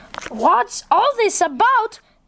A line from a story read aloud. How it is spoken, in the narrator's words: the people came shouting